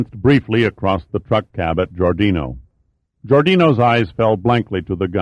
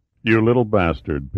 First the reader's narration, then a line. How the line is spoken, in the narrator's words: Pitt said evenly